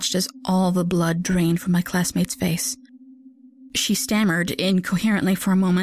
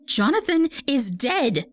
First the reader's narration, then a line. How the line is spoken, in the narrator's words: cried